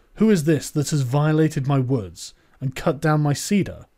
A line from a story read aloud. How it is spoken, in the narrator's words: He cried out